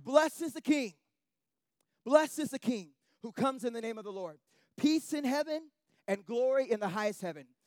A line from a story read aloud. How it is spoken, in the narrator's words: They shouted